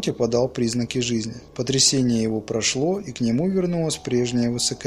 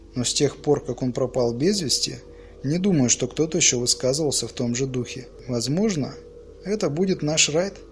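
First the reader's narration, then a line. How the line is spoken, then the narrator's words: Grim smiling voice. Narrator (Russian): мрачно улыбнулась Барбур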